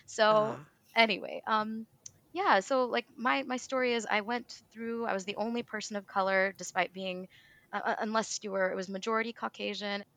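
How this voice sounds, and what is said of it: Midwestern American accent. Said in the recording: “I have a very Midwestern accent”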